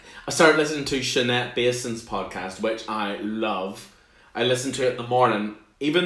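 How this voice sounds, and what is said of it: Usual voice. Nothing is said of it.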